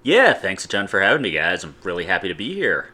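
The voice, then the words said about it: Polished, smooth NPR-style radio voice. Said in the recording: “You were not lying about the NPR voice. ... I come into podcasts with this very polished, I'm so happy to be here voice”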